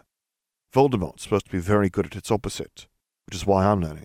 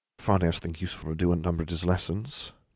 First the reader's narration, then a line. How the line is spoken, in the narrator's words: Nev muttered